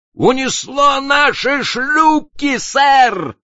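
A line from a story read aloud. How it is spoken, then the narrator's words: Excited shout. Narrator (Russian): взволнованно крикнул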